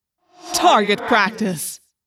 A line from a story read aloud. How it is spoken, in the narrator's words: Visser III laughed